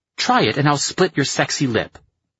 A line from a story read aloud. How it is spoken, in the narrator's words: she snapped back, her quick temper ignited